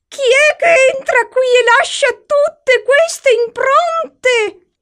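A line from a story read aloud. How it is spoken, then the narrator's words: Nervous yell. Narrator (Italian): urlò Mina, evidentemente innervosita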